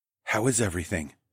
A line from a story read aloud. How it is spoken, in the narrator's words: I whispered to Zoe